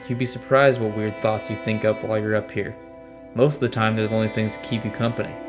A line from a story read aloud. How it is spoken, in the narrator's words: I laughed and replied